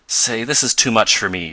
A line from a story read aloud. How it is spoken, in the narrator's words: exclaimed Tom